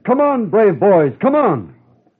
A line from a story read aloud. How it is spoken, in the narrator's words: He shouted